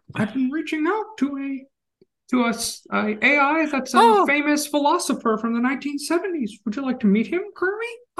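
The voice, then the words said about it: Poor Miss Piggy puppet voice. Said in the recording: “I can't do my Miss Piggy impersonation. ... We can't do good Miss Piggies.”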